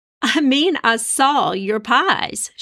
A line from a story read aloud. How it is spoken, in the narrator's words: continued to laugh